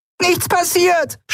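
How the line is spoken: Screamed. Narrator (German): schrie sie

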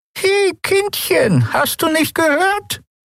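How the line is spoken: Old woman's croak. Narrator (German): krächzte die alte Frau

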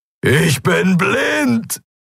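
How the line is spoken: Roaring. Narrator (German): brüllte er

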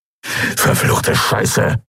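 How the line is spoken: Hissed. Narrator (German): zischte Urdrak

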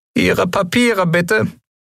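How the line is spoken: Squeaked, commanding. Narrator (German): piepste er befehlsgewohnt

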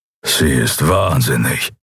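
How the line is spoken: Warrior grumbling. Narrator (German): brummte der Schattenskrieger

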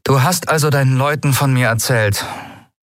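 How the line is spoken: Toneless doubtful question. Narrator (German): fragte sie tonlos, nur um ihre Zweifel zu übertönen

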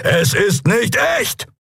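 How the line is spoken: Call out. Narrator (German): rief er

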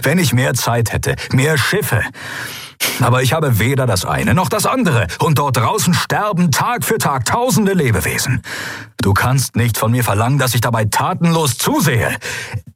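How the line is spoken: Barking. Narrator (German): bellte er

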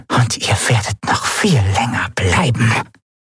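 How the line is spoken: Whisper from a corner. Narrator (German): wisperte eine Stimme in der Ecke des Raumes

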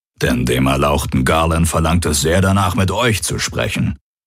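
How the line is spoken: Growled. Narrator (German): knurrte der Aur

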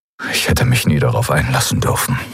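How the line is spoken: Murmured. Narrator (German): murmelte er

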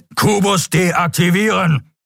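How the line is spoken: Thundering voice. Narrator (German): donnerte der schwarze Skria

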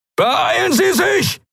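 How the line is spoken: Shouting. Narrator (German): schrie Helios in den Kubus

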